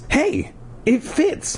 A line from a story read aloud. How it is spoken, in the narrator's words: she cried happily